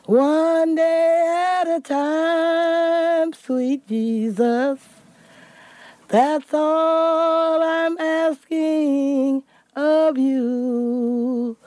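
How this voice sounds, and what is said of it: Hoarse singing voice. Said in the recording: “hoarse. She was hoarse, but she still can blow.”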